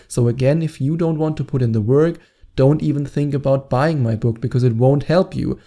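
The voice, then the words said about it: German-accented English. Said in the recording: “my annoying German accent ... my accent”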